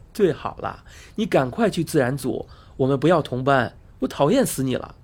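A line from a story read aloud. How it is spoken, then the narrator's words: Laughing. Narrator (Chinese): 阿汉笑着说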